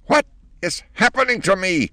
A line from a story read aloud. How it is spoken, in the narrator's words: shrieked the old lady